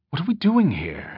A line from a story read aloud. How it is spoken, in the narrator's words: Amberlee asked anxiously, finding it difficult to keep the tone of her voice low enough that they would not be overheard